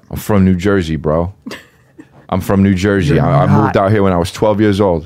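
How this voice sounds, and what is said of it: Exaggerated New Jersey accent. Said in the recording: “That's a fake accent.”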